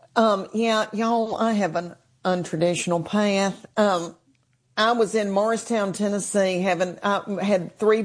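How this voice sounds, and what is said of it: Noticeable regional accent. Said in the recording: “With this accent”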